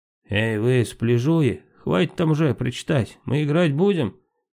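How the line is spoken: Mocking shout. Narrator (Russian): насмешливо крикнул капитан команды соперник Влад

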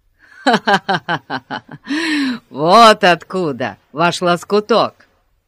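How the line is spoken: Deep bass laugh. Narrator (Russian): Инспектор засмеялся басистым смехом

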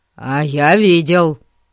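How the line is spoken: Angry reply. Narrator (Russian): сердито ответил Эрн

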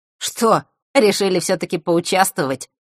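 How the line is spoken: Wry grunt. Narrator (Russian): хмыкнул он

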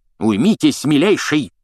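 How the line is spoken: Barked. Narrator (Russian): рявкнул Фадж

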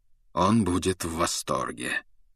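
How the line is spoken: Cold remark. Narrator (Russian): холодно заметил Люпин

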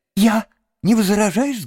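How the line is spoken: Eager exclamation. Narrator (Russian): с готовностью воскликнул крот

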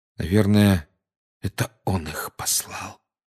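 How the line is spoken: Quiet. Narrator (Russian): тихо сказал Гарри

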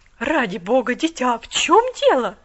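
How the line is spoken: Exclaiming. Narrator (Russian): воскликнула она

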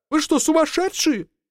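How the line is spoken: Shouting. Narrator (Russian): закричал инженер

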